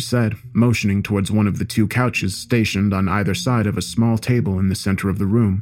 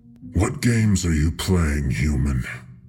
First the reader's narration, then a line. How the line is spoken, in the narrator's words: The Harbinger asked, growling in an attempt to intimidate her